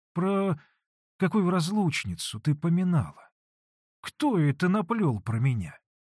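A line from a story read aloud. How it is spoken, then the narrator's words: Timid, stammering voice. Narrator (Russian): Алексей сказал ей робким голосом, запинаясь на каждом слове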